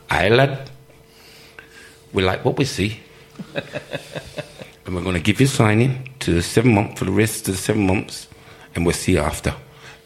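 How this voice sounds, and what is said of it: Imitates another person's accent. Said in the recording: “I'm giving you this John Neal accent”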